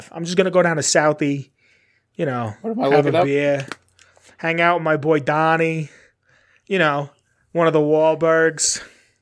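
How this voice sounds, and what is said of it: Put-on nasal Boston accent. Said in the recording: “The Boston accent makes me laugh ... It's just all in the nose.”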